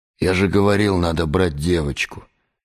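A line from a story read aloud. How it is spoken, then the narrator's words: Quiet. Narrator (Russian): тихо сказал Геннадий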